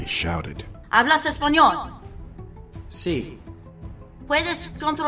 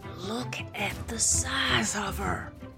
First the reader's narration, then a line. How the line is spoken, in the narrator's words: Gray whispered to us all